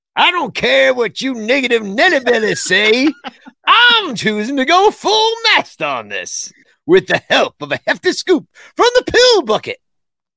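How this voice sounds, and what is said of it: Old-fashioned old man voice. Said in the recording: “You needed to say that in a different accent... Maybe more old manish.”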